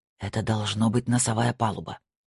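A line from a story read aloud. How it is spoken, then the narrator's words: Whisper. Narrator (Russian): прошептал Снейдер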